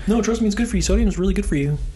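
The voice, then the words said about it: High-pitched character voice. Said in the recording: “Doctor with a really high voice.”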